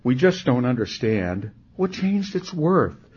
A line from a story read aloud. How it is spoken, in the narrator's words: some of them cried